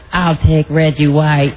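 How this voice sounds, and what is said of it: Imitates another person's voice. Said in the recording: “That was ... doing his Super Dave impression.”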